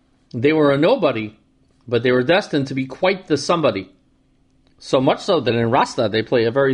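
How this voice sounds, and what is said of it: Usual voice. Nothing is said of it.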